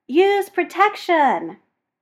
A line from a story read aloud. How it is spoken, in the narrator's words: Sharpie says, but because he's a dick, he yells